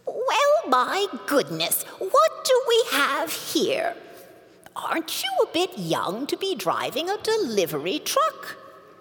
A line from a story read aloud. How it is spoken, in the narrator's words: Annabelle piped up